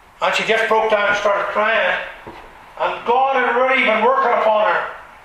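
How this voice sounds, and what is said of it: Strong regional accent. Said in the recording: “they won't understand what I'm saying with the accent we have from here. Nobody knows what you're talking about. ... as soon as the woman heard my accent”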